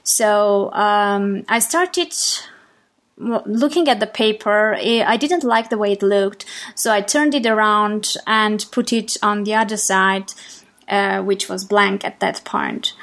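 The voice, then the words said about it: Armenian accent in English. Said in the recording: “I am from Armenia, and English is a foreign language for me. So I'm sure you can hear it in my accent”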